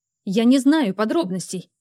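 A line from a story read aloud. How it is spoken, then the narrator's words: Shouted. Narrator (Russian): выкрикнула я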